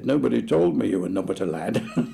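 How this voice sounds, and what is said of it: Barrow-in-Furness accent. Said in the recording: “That was a perfect accent from Barrow and Furness.”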